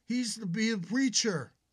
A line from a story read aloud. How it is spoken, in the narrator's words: shouted again